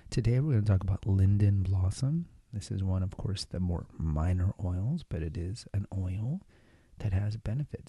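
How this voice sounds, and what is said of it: Whispering. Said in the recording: “I'm trying to record this episode without waking up my kids. So I'm going to be whispering.”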